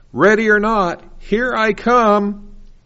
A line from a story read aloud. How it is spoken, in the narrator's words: one person loudly shouts